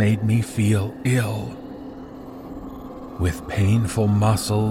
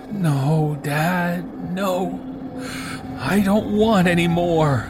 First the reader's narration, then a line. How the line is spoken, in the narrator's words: I pleaded with him